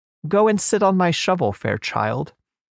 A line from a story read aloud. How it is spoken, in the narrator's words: the witch said in a friendly voice